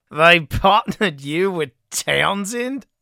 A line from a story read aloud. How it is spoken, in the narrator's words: Campbell barked laughter